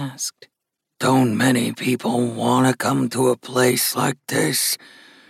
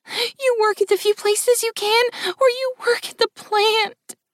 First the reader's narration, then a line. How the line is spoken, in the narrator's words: whimpered the woman